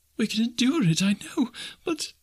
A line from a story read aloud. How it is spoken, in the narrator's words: she sobbed